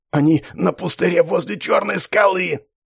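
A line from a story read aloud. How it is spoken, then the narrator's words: Aristocrat's hoarse wheeze. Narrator (Russian): прохрипел аристократ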